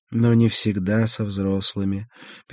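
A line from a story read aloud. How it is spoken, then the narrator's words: Sad smile. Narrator (Russian): печально улыбнулась Гера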